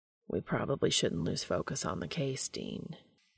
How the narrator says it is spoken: Castiel says flatly

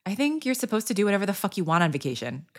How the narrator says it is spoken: Carmi said

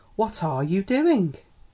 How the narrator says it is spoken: she exclaimed

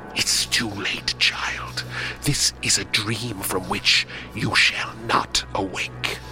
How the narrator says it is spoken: she hissed

